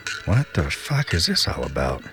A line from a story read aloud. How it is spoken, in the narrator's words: She whispered to herself